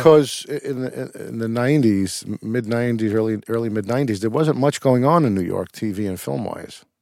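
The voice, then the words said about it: Brooklyn New York accent. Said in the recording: “Are you from Brooklyn? ... you never shook the accent”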